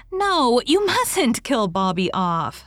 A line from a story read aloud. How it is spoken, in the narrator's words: declared Diana, laughing